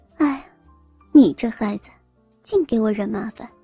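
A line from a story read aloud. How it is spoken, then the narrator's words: Sighing, resigned. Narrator (Chinese): 他也不训斥林文，只是叹口气说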